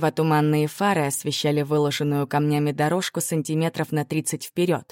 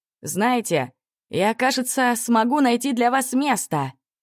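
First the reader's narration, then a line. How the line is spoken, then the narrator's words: Slightly ingratiating shout. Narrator (Russian): прокричал немного заискивающе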